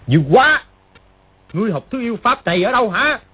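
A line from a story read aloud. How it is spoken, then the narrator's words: Alarmed, angry loud call. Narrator (Vietnamese): Triệu Chí Kính vừa kinh hãi vừa tức giận gọi to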